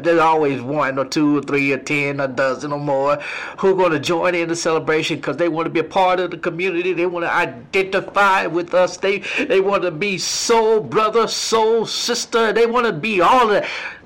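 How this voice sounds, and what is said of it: Preacher-style preaching delivery. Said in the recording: “I'm in my preaching voice.”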